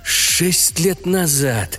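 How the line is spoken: Groaned. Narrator (Russian): простонал Раферти

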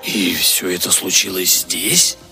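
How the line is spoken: Hoarse whisper. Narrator (Russian): хрипло прошептал Хендрат

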